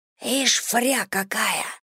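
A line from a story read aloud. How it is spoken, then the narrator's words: Distant whisper. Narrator (Russian): раздался шепот с предпоследнего ряда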